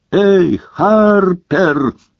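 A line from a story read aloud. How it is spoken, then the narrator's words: Desperate yell. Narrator (Russian): заорал в отчаянии Гарри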